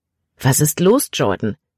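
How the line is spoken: Plain. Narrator (German): sagte Caleb

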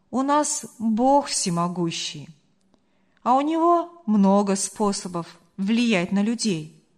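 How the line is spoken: Calm answer. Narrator (Russian): спокойно ответил Марк

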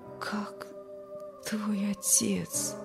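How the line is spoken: Barely audible question. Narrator (Russian): спросил еле слышно

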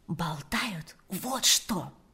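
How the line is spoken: Whispered. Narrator (Russian): прошептала Ирина

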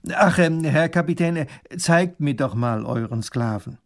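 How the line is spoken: Said loudly. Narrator (German): sagt er laut

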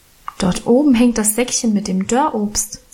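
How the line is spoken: Plain. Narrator (German): sagte ich

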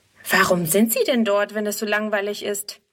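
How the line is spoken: Plain question. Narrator (German): fragt Friedrun

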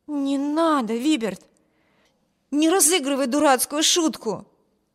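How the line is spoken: Exclaimed. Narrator (Russian): воскликнула Эми

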